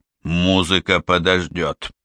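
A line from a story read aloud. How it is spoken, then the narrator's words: Muttered. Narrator (Russian): пробормотал Бэкстрем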